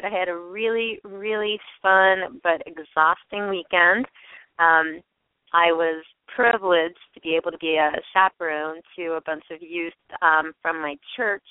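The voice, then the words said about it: Slightly hoarse, croaky voice. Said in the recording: “I've got a little frog in my throat.”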